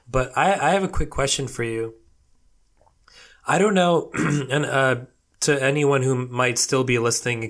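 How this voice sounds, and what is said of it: Voice sounds strained and unwell. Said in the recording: “excuse my voice. ... I'm still recovering from a little bit of a illness”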